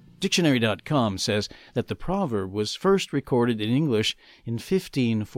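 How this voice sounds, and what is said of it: Usual voice. Nothing is said of it.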